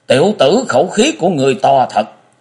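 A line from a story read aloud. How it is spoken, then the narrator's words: Fierce, menacing voice. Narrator (Vietnamese): U Minh Ma Quật càng như lửa cháy đổ thêm dầu, với giọng hung ác nói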